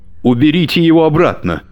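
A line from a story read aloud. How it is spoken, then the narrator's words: Hysterical shout. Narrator (Russian): истерично выкрикнул Муреев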